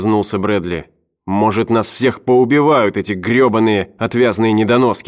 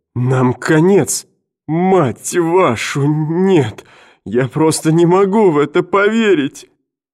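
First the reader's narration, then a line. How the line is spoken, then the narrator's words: Sobbing. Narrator (Russian): он зарыдал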